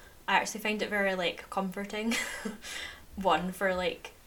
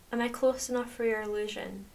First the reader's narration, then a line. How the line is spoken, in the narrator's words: she asks